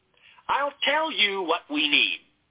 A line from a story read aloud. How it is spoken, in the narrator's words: Lovell snapped